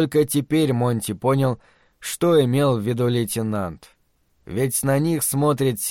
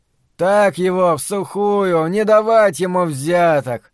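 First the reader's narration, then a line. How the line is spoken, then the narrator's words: Mocking shout from above. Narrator (Russian): крикнул кто-то сверху насмешливо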